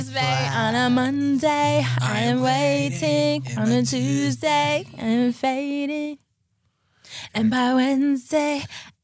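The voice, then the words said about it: Mumbled numb-tongue indie singing accent. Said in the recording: “the indie accent ... that Alina Baraz accent ... That numb tongue accent ... It's like my tongue fell asleep”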